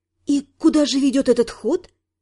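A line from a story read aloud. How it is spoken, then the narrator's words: Quiet question. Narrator (Russian): спросила тихо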